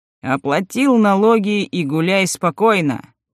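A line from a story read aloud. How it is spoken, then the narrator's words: Said with a laugh. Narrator (Russian): почему-то сказал его брат и рассмеялся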